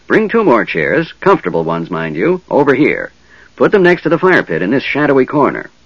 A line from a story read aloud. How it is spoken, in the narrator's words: the old man said